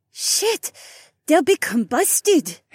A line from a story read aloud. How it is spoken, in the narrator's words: Haywan gasped